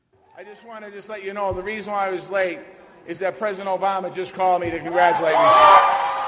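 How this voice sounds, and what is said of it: Boston Dorchester accent. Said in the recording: “That distinctive Dorchester accent”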